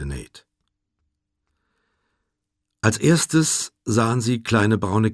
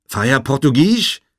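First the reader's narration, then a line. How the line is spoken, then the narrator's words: Calling out. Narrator (German): rief Jevy den 4 Frauen und 7 Kindern zu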